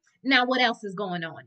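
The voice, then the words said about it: Imitates another person's voice. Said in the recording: “in my Cynthia Bailey voice”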